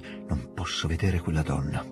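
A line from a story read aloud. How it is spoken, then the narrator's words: Murmur. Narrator (Italian): la principessina mormorasse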